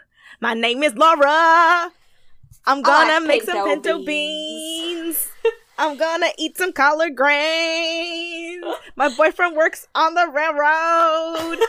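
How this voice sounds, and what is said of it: Imitates another person's voice. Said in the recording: “Everybody impersonate the other girls. ... you're trying out for Laura.”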